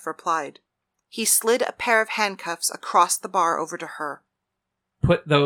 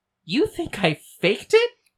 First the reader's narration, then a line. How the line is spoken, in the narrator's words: Paris laughed